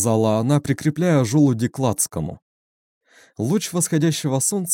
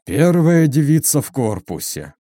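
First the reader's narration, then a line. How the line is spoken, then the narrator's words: Moaned, major. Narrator (Russian): простонал майор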